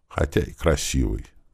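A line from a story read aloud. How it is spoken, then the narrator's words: Quiet finishing words. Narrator (Russian): тихо закончила она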